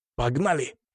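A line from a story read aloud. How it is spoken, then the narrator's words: Strained, through teeth. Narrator (Russian): процедил он, напрягая мышцы живота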